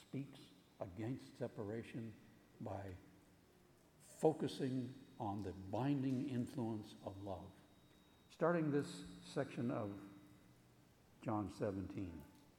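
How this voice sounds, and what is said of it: Strained, failing voice. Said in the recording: “apologize for my voice. It's trying its best to leave me.”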